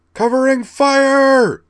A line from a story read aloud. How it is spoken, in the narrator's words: bellowed in her best battlefield command voice